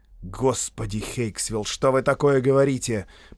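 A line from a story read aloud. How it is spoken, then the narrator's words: Muttered. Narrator (Russian): пробормотал Торренс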